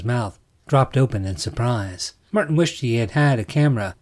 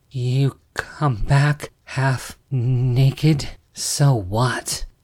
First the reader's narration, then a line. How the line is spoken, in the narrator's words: Martin snarled